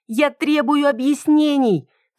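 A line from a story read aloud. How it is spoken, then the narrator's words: Shouted. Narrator (Russian): кричала я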